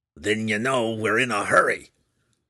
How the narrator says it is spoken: snarled the Durgar

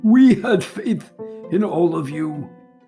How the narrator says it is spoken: shouted

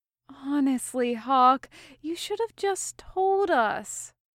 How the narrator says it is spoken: Meryl said with an exasperated sigh

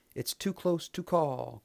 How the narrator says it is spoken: cried the announcer

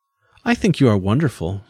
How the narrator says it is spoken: she laughed

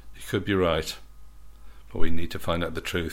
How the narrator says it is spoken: sighed Percy

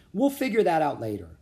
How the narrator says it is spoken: said Annie

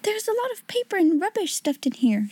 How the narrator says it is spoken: exclaimed

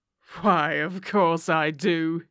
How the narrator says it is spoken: he wheezed

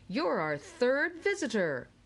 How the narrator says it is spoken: boomed the jolly announcer in the ceiling

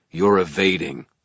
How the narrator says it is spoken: growled

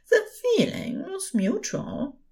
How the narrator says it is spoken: he said softly

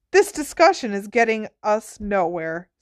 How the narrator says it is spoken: said Ogden firmly

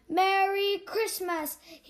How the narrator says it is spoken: he shouted

